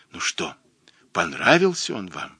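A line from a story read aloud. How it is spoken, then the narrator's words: Happy whisper. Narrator (Russian): вся поглощенная счастьем, шепнула ей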